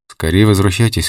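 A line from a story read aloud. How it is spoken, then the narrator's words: Plain. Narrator (Russian): сказал Олег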